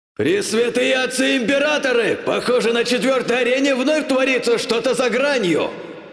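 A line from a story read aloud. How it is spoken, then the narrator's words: Euphoric yell. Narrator (Russian): завопил в полной эйфории ведущий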